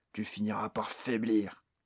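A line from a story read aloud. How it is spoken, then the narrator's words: Orc's growl. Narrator (French): gronda l'orque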